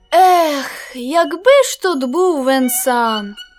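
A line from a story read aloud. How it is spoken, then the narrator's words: Sad sigh. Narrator (Ukrainian): Сумно зітхнув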